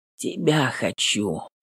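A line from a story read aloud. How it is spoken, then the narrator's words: Muffled mumble. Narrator (Russian): Бормочу, зарываясь носом в ее волосы на макушке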